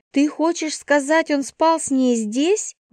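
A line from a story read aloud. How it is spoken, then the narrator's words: Indignant sister. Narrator (Russian): возмущенно произнесла сестра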